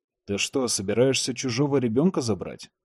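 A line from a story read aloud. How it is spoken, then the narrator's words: Plain question. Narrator (Russian): спросил Чет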